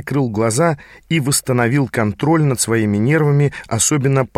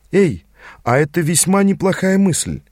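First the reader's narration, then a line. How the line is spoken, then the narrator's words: Quiet exclamation. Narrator (Russian): тихо воскликнула моя проводница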